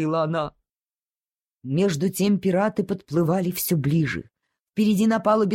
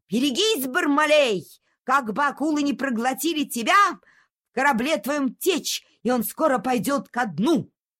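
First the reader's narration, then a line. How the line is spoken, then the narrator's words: Shouting back. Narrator (Russian): Доктор закричал ему в ответ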